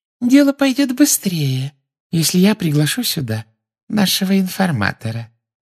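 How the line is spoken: Silky voice from behind. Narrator (Russian): шелковым голоском сказала из-за его спины Амбридж

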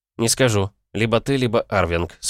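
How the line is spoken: Calm answer. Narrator (Russian): спокойно ответил я

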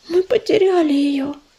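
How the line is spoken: Barely audible babble. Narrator (Russian): еле слышно пролепетала палевая кошка

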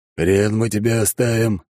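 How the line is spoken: Booming clown voice. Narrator (Russian): прогудел клоун

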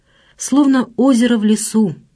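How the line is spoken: Halting repetition. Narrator (Russian): повторил он, запинаясь

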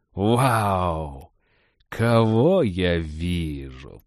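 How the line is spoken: Drawn-out drawl. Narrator (Russian): протянул он

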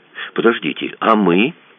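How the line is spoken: Calm question. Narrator (Russian): спокойно спросила Даша

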